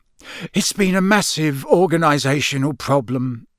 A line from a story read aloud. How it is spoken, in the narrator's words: sighed Mr